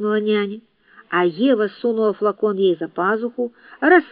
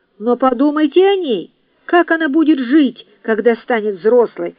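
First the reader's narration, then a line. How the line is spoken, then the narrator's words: Exclaimed. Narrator (Russian): воскликнула Мари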